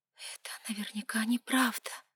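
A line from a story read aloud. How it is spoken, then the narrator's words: Self-soothing whisper. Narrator (Russian): прошептала, пытаясь сама себя успокоить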